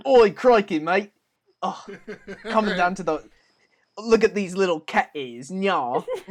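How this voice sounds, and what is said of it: Put-on Australian accent. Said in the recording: “Imagine an Australian femboy. Anybody can do an accent.”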